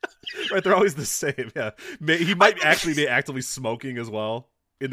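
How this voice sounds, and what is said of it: Usual voice. Nothing is said of it.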